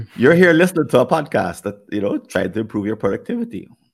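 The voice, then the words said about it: Jamaican accent. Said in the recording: “my Jamaican accent”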